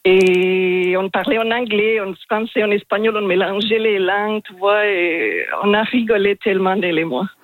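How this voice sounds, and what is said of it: Strongly marked foreign accent in French. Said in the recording (French): “j'ai un accent assez marqué ... Il est magnifique, cet accent”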